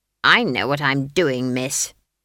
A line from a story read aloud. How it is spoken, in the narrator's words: snapped Granny, gripping the broomstick hard and trying to make herself as light as possible